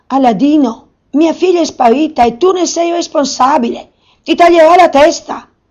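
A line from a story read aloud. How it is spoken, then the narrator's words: Furious scream. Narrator (Italian): urlò fuori di sé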